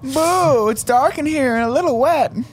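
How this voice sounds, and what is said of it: Comic character voice. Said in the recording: “did an impression of his own urethra”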